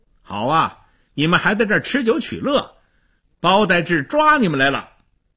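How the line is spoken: Loud. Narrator (Chinese): 张骞大声地说

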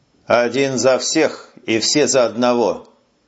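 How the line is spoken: Muffled, dull repetition. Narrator (Russian): глухо повторил Куницын

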